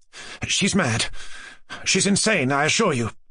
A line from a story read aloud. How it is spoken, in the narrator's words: responded Mushkin in a shaking voice